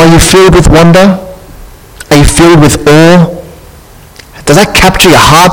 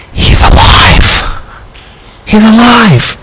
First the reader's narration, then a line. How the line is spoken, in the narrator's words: the Spirit whispers into your heart